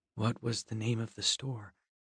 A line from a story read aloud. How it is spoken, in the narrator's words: said, just above a whisper